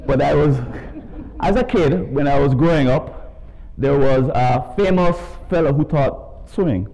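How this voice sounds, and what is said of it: Jamaican accent. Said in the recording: “As you could tell from my accent, I'm not from around these parts. I was raised in Jamaica”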